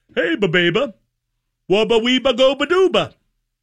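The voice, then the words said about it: Mumbled, garbled cartoon character voice. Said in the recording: “my mushmouth impersonation. ... I'm getting better at it.”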